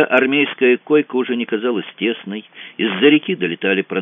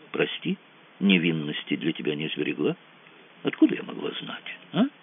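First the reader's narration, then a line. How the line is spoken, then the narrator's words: Whispering in ear. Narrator (Russian): Ольга зашептала на ухо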